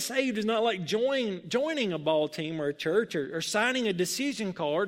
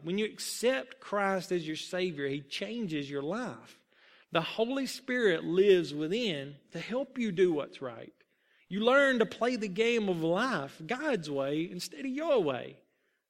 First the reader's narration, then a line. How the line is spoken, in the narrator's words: Muggs answered quietly